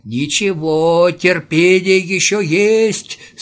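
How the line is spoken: Moaning old man. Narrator (Russian): стонал старичок

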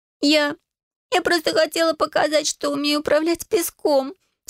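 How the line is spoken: Sobbing, apologetic. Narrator (Russian): всхлипывала она, извиняясь

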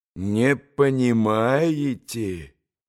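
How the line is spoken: Reproachful drawl. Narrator (Russian): протянул он укоризненно

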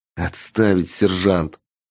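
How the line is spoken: Low half-voiced growl. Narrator (Russian): Полголоса рыкнул Андрей

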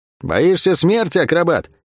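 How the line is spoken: Shouting. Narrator (Russian): крикнула она ему

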